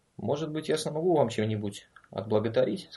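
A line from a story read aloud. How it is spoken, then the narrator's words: Calm speech. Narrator (Russian): сказал он спокойно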